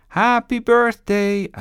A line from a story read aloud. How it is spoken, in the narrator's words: Sebastian screamed